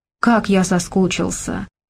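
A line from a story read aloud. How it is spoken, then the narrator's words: Whisper. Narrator (Russian): шептал он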